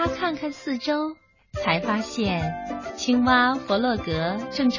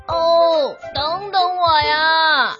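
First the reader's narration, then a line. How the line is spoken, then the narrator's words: Calling out. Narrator (Chinese): 就听到有人在叫它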